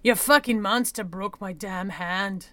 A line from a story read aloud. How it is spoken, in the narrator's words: Nahoy snarled